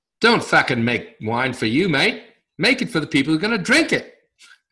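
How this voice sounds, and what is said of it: Bad put-on Australian accent. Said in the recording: “It's a really bad accent”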